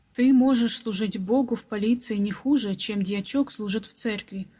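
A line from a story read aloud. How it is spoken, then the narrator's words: Plain. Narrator (Russian): ответил мистер Хоуп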